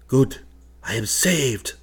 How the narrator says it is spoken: cried

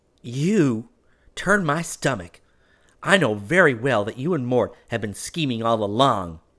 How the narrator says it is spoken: said hotly

